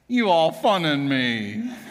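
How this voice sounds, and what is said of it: Imitated southern drawl. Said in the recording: “in his cute little southern drawl”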